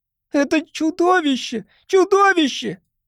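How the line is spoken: Frightened woman's cry. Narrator (Russian): Испуганно вскрикнула какая-то женщина

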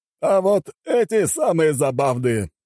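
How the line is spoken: Chuckling cartel boss. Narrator (Russian): хохотнул глава картеля

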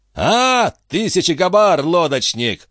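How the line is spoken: Shouting old man. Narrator (Russian): закричал дядюшка Антифер

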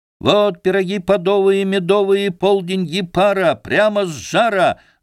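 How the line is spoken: Ringing shout. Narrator (Russian): звонко кричал Алексашка

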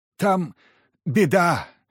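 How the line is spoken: Hoarse wheeze. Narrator (Russian): просипел Тихоныч

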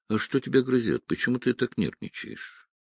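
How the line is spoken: Casual question. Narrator (Russian): он спросил небрежным тоном

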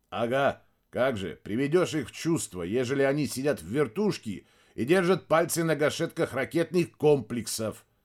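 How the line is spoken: Grumbling. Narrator (Russian): проворчал Мирадзе

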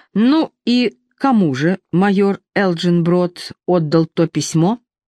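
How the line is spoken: Plain. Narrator (Russian): спросил он

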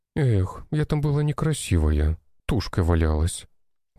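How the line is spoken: Sighing. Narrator (Russian): вздохнула Нина

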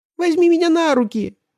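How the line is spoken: Squeaky voice. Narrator (Russian): пропищал мяч

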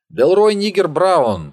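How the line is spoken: Joyful male shout. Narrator (Russian): прокричал он, радуясь только одному

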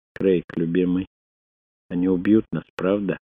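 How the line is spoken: Quiet question. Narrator (Russian): тихо спросила Селлиан

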